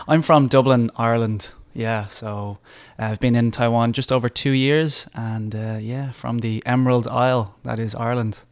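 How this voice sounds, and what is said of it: Mild Irish accent. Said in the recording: “he's got a little bit of an accent there... Just a little bit, yeah. Not too strong, but yeah, you can definitely hear it”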